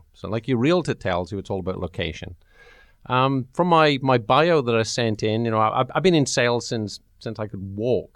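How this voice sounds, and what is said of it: Welsh accent. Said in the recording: “I love your accent. ... go to Wales”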